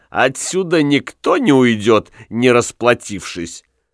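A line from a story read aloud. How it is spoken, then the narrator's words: Giggling old woman. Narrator (Russian): старуха Стевен, хихикнув, сказала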